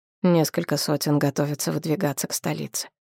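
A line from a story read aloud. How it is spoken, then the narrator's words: Quiet. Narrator (Russian): тихо добавил Нахт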